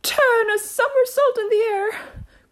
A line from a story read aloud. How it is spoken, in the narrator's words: cried the Mock Turtle, capering wildly about